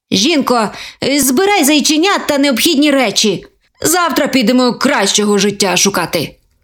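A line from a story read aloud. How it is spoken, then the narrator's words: Grumbling. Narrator (Ukrainian): Буркнув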